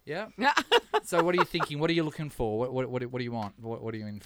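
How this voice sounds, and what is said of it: Australian accent. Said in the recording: “I love the Australian accent.”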